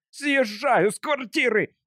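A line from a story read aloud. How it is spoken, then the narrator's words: Roar. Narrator (Russian): взревел мистер Гэнчард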